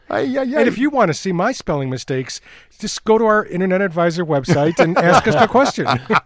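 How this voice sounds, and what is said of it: Midwestern American accent. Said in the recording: “I have that Midwest accent.”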